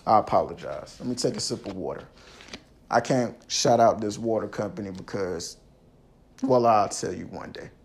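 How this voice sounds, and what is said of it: Hoarse, fading voice. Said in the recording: “Excuse my voice. I'm losing my voice.”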